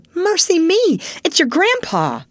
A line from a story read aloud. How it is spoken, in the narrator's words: exclaiming with alarm